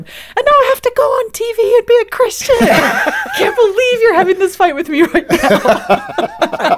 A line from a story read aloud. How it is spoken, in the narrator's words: I remember actually yelling at him